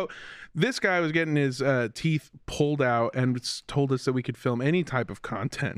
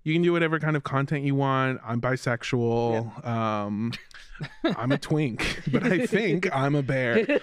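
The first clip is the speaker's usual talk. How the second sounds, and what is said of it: Imitates another person's voice. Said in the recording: “That's my Blizz impression, by the way. ... Yeah, it's pretty good. ... That's a really good impression.”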